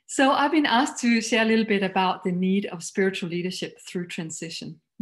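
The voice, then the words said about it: Danish-accented English. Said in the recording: “You might find my accent a little funny, but I am Danish.”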